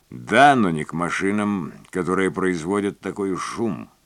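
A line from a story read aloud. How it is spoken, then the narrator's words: Cold objection. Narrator (Russian): возразил он холодно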